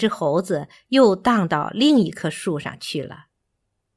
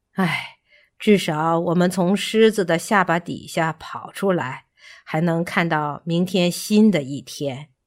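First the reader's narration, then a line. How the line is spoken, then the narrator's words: Sighing. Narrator (Chinese): 干巴 叹息道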